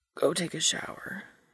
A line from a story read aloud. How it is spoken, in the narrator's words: he says in his softly crackling voice